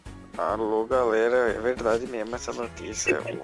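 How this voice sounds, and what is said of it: Very unmotivated imitation of another person. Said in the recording (Portuguese): “imitação do Faustão? ... Imitação mais desmotivada do mundo. ... Faustão com depressão.”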